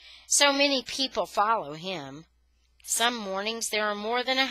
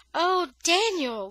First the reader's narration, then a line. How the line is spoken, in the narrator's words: Leah cried